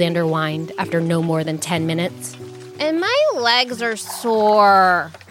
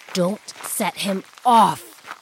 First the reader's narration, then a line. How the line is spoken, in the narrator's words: he hissed